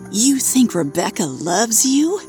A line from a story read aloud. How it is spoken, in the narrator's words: You laugh